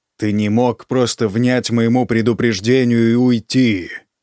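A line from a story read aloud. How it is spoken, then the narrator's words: Barking. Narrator (Russian): рявкнул Сет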